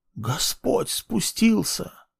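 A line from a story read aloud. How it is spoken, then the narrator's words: Awed whisper. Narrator (Russian): прошептала кто-то из них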